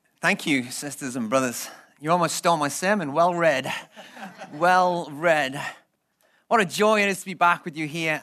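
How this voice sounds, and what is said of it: Liverpool English accent. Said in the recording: “I have a different accent. ... it's not the Queen's English. It's actually from Liverpool, which is the north of England, which sounds a little different. ... it's got a different kind of twist to it.”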